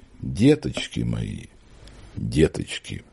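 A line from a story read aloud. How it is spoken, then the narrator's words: Tearless whisper. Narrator (Russian): Мария Власьевна шептала без слез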